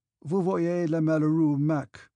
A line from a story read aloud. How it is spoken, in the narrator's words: uttered in a broken voice